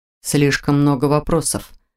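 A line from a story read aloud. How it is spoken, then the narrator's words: Mumbling. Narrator (Russian): пробормотал Виктор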